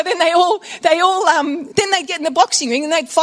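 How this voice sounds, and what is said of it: Usual voice. Nothing is said of it.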